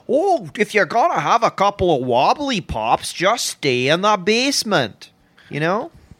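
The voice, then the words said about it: Imitates another person's moneyed accent. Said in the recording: “he talks like that ... I'm so turned on right now by that accent ... that Ford accent, that those guys come from some money, the way they speak ... our mid-Atlantic accent ... East Coast elite accent”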